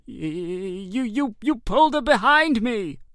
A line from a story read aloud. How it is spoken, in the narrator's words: cried George